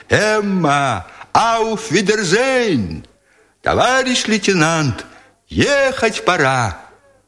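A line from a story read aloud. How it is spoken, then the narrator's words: Distant cheerful soldiers shouting. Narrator (Russian): Оттуда доносились голоса солдат, которые весело кричали им в разнобой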